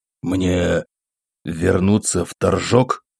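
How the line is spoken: Quiet, shaken question. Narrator (Russian): тихо спросил провинциальный настоятель, чувствуя, как подкашиваются ноги

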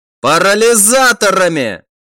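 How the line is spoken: Commander shouting. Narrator (Russian): выкрикнул командир

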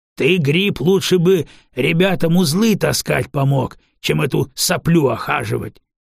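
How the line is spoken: Barking raider. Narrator (Russian): кто-то из налетчиков рявкнул

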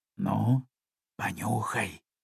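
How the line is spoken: Quiet speech. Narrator (Russian): тихонько говорю Ярику

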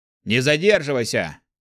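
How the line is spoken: Growl. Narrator (Russian): рыкнул Валлар

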